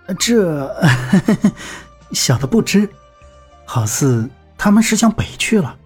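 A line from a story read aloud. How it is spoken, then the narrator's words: Ingratiating, smiling. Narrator (Chinese): 小二陪笑道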